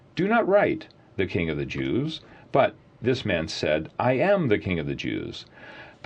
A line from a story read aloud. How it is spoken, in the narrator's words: Pilate answered